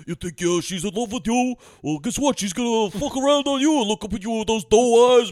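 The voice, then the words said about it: Imitates another person's voice. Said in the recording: “terrible Dan Hedaya impression”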